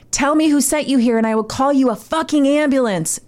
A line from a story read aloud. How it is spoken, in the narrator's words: yelled in his face